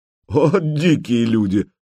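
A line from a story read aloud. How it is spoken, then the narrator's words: Laughing. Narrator (Russian): Владимир засмеялся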